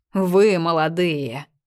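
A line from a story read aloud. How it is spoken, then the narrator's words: High rattling voice. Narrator (Russian): неожиданно высоким, неприятно дребезжавшим голосом заговорил он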